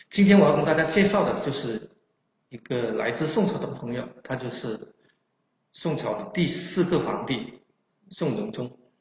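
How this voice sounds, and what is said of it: Chaoshan-accented Mandarin. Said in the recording (Chinese): “白话包括我们的潮汕话...大家可以把我的口音当成宋朝的普通话”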